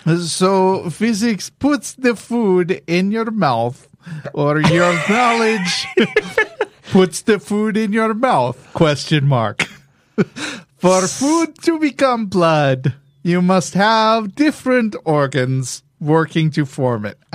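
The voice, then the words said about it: Put-on Greek accent. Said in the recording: “do it with physics, a Greek accent? ... Let me channel my big fat Greek wedding”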